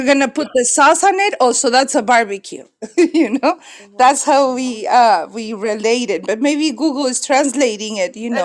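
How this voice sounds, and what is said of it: Hispanic accent. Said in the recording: “Hispanic accent”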